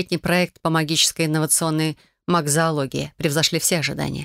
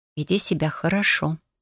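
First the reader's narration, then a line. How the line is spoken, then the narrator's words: Whisper. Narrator (Russian): прошептала Тошке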